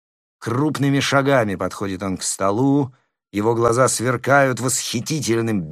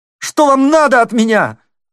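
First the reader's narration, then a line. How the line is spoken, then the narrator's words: Tearful shout. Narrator (Russian): слезливо закричал он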